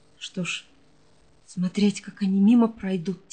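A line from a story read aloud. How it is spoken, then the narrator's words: Quiet question. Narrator (Russian): тихо спросила Осянина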